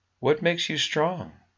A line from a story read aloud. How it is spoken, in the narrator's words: she asked him sweetly